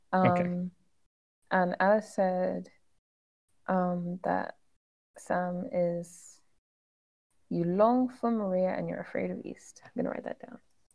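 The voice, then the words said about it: Speaks with a noticeable accent. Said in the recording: “because of your accent and how you pronounced these two names that sound very similar”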